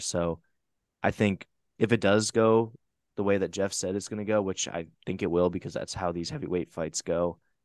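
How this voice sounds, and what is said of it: Sick, strained voice. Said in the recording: “apologize for my voice, by the way. I'm extremely sick right now.”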